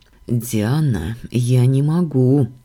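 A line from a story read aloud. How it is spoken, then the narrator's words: Muffled mutter. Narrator (Russian): глухо пробормотал Дамиан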